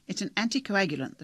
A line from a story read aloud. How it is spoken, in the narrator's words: the doctor said impatiently